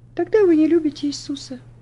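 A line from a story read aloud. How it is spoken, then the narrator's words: Sad reply. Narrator (Russian): печально ответила она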